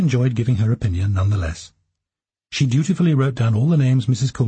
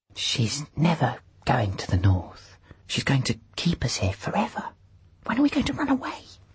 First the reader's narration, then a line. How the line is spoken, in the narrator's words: Pantalaimon whispered from the pillow